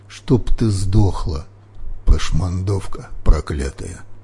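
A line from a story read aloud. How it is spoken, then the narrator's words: Muttered curse. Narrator (Russian): бормотала госпожа Кимхи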